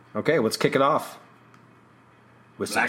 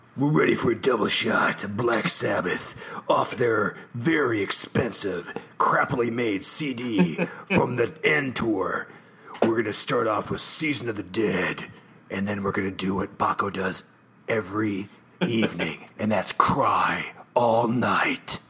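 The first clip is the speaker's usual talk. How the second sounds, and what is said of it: Radio DJ announcer voice. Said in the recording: “do the radio voice”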